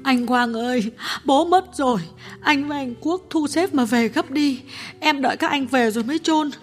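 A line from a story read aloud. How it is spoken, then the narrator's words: Tearful sister over phone. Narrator (Vietnamese): Cô em gái điện thoại sang mếu máo nói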